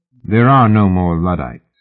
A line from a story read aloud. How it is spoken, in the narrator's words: Fraser said calmly